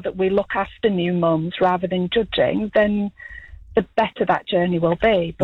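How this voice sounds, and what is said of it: Musical West Yorkshire English accent. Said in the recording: “you've got a lovely accent... I'm from West Yorkshire, England... Great accent... Very musical accent.”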